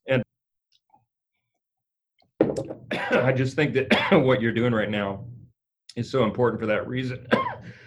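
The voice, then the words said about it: Choked-up, emotional voice. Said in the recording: “I'm getting choked up about it.”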